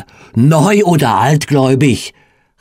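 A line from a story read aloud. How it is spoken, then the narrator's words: Called out. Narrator (German): rief er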